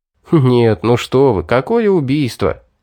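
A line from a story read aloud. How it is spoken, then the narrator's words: Laughing. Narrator (Russian): рассмеялся я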